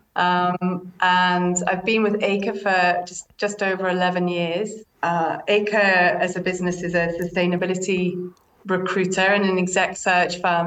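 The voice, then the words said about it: British accent. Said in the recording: “as you can tell from my accent, I'm from the UK”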